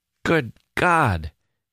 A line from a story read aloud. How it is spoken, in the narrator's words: he kept exclaiming